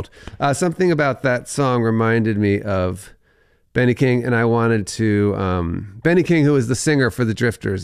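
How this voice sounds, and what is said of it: Voice sounds slightly congested. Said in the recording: “I have a little cold.”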